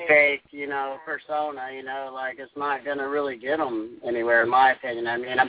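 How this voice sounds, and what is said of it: Southern American twang accent. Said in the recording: “your damn twang ... I love the damn southern accent ... when I hear the southern boys talk”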